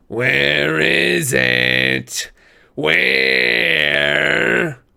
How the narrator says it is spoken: The other people on the bus were screaming, cowering in their seats

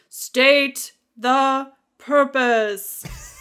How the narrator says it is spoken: A male voice comes booming saying

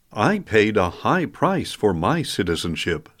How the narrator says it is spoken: said the commander

